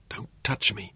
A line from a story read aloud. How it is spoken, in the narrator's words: she whispered, and her eyes were huge with terror